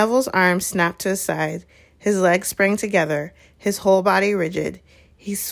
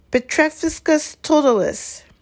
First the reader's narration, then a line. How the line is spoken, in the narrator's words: she cried